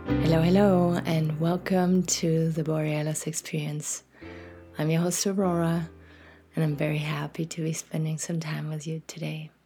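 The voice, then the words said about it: Slightly scratchy morning voice. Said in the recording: “My voice is still a little scratchy because I woke up not too long ago”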